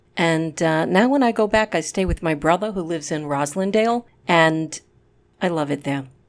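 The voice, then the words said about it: Native Rhode Island/Boston accent. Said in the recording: “originally from Pawtucket, Rhode Island ... lived in Boston for a long, long time ... my native accent”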